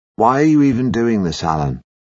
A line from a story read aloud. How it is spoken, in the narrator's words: I sigh